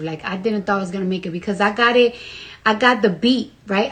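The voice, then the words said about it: Strong non-native accent. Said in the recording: “I have a really big accent and my pronunciation”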